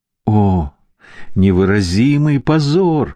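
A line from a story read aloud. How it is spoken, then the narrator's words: Anguished moan. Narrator (Russian): простонал Арджун, закрывая лицо длинными пальцами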